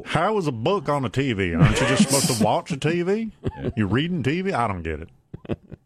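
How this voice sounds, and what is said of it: Put-on American southern accent. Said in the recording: “Apologies for the southern accent there.”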